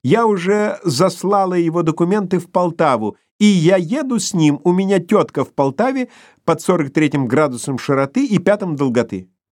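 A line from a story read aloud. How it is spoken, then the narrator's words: Shouting, excited and cheerful. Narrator (Russian): Брюнеткина голова крикнула возбужденно и весело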